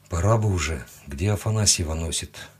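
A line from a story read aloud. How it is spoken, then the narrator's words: Quiet. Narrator (Russian): Тихо сказал я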